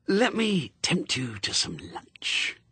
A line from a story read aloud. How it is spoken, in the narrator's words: he hissed